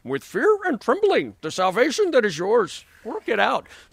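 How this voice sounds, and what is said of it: Poor Yoda impression. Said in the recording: “the Greek sounds like Yoda, okay? This is how it sounds. ... It's a terrible, terrible, terrible imitation.”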